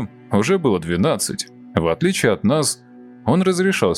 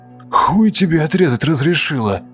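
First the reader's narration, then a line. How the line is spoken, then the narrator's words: Hoarse wheeze, choking. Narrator (Russian): Просипел Кирилл, пытаясь выкашлять рвоту из горла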